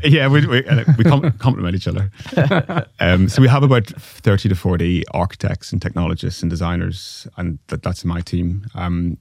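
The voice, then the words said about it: Strong thick Northern Irish accent. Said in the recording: “my accent's very strong ... just my strong, thick Northern Irish accent.”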